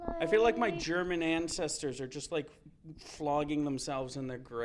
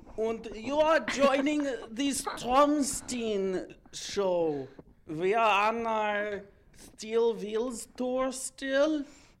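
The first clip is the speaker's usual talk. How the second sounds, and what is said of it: Put-on German accent. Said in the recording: “Is my German accent getting any better? ... It's better than what I will never try. ... But it's improved? ... Yeah.”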